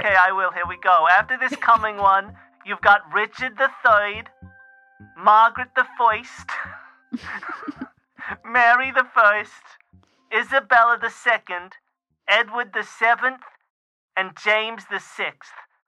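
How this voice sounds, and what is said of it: Put-on foreign immigrant accent. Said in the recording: “I don't know why I'm doing a voice ... She's an immigrant ... I feel less alone if you speak like me”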